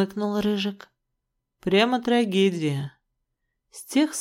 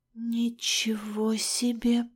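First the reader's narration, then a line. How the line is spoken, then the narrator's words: Muttered. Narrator (Russian): пробормотала я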